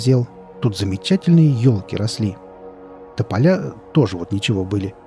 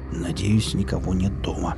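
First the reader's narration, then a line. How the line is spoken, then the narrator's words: Muttered. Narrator (Russian): пробормотал он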